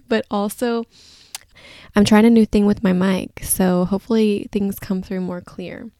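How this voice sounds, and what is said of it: Groggy voice. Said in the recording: “My voice may sound a little bit groggy.”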